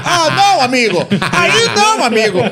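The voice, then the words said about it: Put-on foreign accent. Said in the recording (Portuguese): “Ele com um sotaque.”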